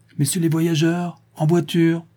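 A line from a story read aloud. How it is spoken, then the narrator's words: Employee shouting at full voice. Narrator (French): crie l'employé, qui donne toute sa voix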